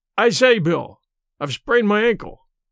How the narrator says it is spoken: he called out

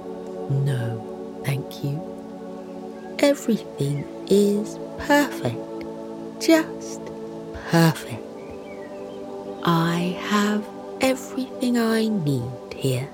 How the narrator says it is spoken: smiles softly, and says

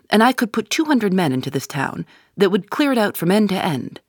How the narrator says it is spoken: cried McGinty

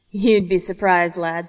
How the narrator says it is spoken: Sir Charles said, laughter rumbling under his words

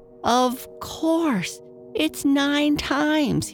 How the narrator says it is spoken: he cried

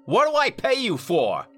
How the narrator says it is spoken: Carver snapped

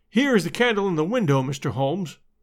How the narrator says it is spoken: said Gregson

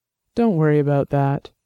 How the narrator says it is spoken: he said, keeping his voice calm and soothing

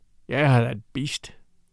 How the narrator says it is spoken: A recrudescence of anger glinted in Weedon Scott's gray eyes, and he muttered savagely

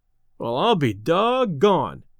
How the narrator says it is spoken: exclaimed Delaney

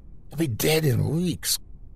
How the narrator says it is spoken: Crow croaked

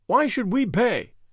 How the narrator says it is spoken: they asked

